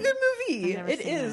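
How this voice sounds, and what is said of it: Voice suddenly goes high-pitched. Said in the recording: “my voice just got so high”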